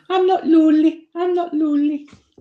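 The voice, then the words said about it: Imitated Geordie accent. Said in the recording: “She's the Cockney one, is it? ... that accent. No, she's Geordie.”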